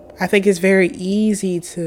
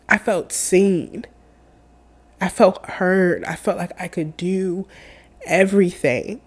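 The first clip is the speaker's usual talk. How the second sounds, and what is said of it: Emotional voice. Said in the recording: “Oh my God, I'm getting emotional.”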